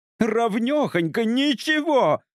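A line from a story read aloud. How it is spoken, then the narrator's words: Shout. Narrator (Russian): кричала она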